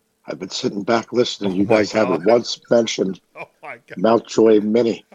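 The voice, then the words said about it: Rough, raspy sick-sounding voice. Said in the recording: “you sound awful... You sound terrible... it sounds like you were swallowing asphalt... Oh, it's rough.”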